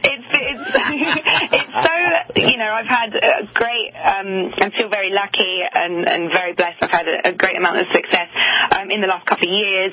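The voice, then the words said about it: London English accent. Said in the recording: “this great London accent”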